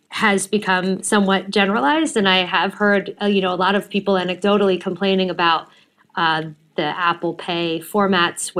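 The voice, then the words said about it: American accent. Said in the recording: “I'm American, as you can tell from my accent”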